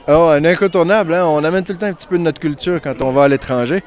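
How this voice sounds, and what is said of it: Québécois French accent. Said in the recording (French): “l'accent aussi. Oh. Comment ça se fait que les Québécois ne perdent pratiquement pas leur accent?”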